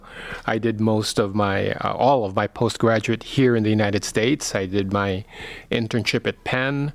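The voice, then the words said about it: Filipino accent. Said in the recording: “my accent might tell you. I'm born and raised Filipino”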